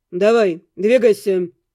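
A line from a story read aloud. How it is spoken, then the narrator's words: Rude address. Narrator (Russian): грубо обратился к гонцу Эддингтон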